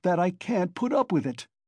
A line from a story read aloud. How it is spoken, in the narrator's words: Raskolnikov cried furiously